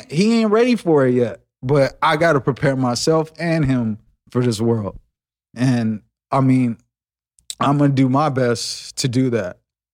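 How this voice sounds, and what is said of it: Emotional, tearful voice. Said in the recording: “sorry to get emotional ... Shit, you cried.”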